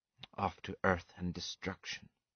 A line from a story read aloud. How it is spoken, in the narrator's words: whispered Atil